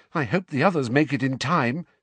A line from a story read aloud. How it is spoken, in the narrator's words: said Mrs